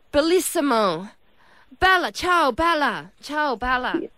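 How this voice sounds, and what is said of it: Put-on Italian accent. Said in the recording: “Italian. ... you got Italian too”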